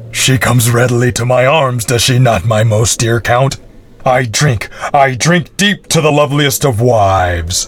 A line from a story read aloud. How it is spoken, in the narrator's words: the Baron shouted